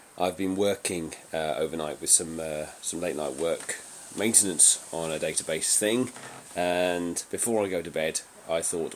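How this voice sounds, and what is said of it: Scratchy voice from a cold. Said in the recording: “Excuse my scratchy voice, I've got a bit of a cold.”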